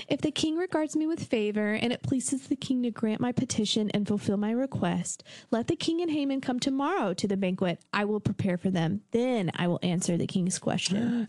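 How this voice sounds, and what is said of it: Sweet, innocent character voice. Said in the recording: “my Esther voice ... All sweet and innocent”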